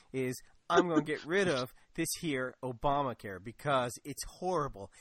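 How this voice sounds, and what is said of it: Put-on Kentucky accent. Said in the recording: “that's my Kentucky accent”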